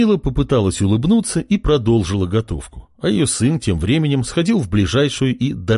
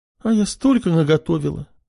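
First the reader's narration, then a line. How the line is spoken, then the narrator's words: Upset sigh. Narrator (Russian): Расстроенно вздохнула она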